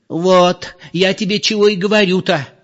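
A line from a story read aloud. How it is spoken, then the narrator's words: Exclaiming. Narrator (Russian): воскликнула Зоя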